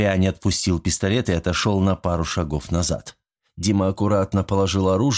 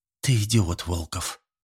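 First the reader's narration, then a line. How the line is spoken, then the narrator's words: Whisper in ear. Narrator (Russian): шепнула она ему на ухо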